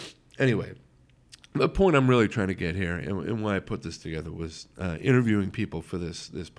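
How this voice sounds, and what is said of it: Usual voice. Nothing is said of it.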